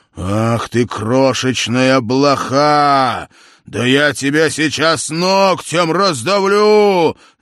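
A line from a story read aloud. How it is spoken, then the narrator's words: Shouted angrily. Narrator (Russian): закричал Тандердель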